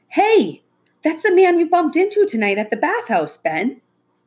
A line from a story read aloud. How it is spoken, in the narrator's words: Becca exclaimed